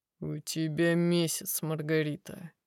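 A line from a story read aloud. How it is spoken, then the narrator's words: Dry tone. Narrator (Russian): произносит гость сухим тоном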